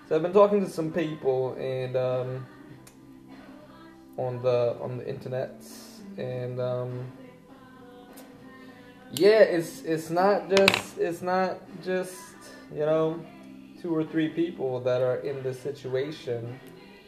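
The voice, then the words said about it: Speaking in a put-on accent. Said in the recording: “I don't know why I'm talking in this accent today”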